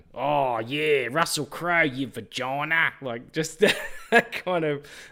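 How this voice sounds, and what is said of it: Exaggerated Australian accent. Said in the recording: “why am I putting on an Australian accent? I'm Australian. And I'm like making it more Australian.”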